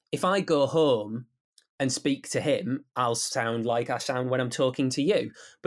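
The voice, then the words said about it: Teesside English accent. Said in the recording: “good to have a Teesside accent on the radio”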